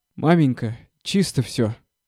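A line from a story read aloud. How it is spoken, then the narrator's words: Announcement, then laughter. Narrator (Russian): объявил матери Гордей Евстратович и опять засмеялся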